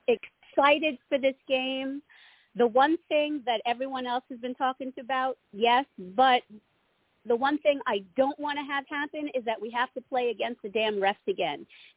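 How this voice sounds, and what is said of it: Rough, hoarse voice. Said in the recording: “Excuse my voice. I actually have an upper respiratory infection this week, so I'm a little rough.”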